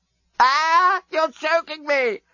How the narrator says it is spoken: screamed Scraliontis

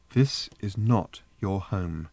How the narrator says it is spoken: said Trillian, still keeping her voice calm

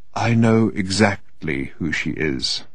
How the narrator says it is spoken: said Odin in a quiet but distinct voice

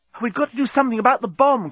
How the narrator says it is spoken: cried Nettie

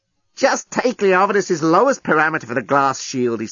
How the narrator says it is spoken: he snapped

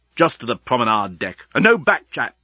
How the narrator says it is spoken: snapped Leovinus

